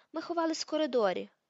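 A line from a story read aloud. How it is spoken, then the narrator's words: Hoarse rasp. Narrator (Ukrainian): прохрипів Гойл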